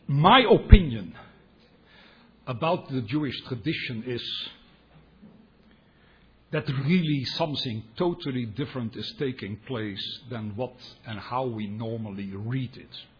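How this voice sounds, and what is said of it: Dutch-accented English. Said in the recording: “my Dutch accent. I'm sorry about that. I can't get rid of it.”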